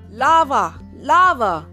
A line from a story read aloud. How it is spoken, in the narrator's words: Dad yelled